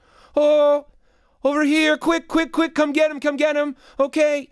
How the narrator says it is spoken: his mother yell over the vacuum cleaner

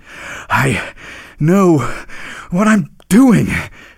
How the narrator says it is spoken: panted the reindeer

